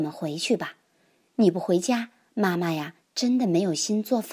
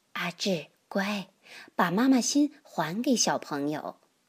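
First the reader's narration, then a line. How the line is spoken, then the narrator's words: Gentle. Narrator (Chinese): 老师都要更温柔的说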